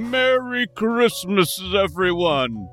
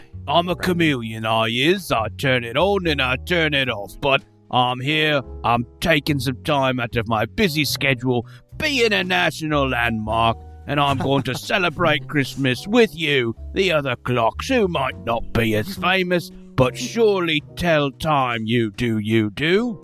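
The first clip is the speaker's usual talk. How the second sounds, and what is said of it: Put-on British accent. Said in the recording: “me signature British accent ... I've probably got a British accent, so here I am, doing it right now”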